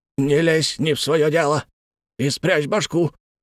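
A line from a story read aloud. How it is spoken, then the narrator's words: Hoarse, exhausted voice. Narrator (Russian): сказал именно охрипший и обессиленный мистер Бакстер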